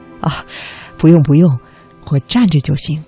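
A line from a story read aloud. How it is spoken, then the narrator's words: Humble, smiling. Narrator (Chinese): 第二位应聘者，立刻谦卑的笑着说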